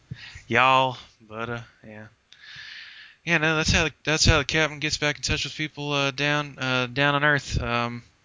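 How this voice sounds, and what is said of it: Attempted southern American accent. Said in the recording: “southern accent ... Think Paula Deen ... Say butta and hey y'all”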